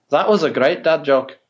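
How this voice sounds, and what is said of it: Put-on Scottish accent. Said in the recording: “Scottish accent”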